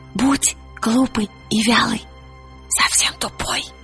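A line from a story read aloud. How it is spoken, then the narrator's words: Whispered in ear. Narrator (Russian): Пантелеймон-щегол шепнул ей на ухо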